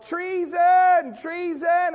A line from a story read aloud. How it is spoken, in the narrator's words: Queen Athaliah says, she yells out